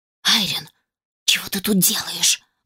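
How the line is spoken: Loud whisper, female. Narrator (Russian): громким шепотом спросила она

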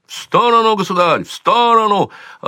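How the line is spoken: Yelling. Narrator (Russian): орал незнакомец

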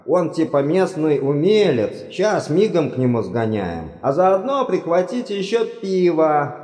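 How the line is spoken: Shouted after someone. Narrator (Russian): прокричал вслед Ринсвинд

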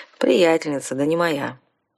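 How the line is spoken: Sighing. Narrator (Russian): вздохнул вампир

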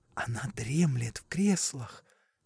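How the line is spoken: Whispering. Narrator (Russian): сказал он шепотом

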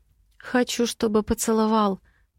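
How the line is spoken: Trembling voice. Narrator (Russian): произношу дрожащим голосом

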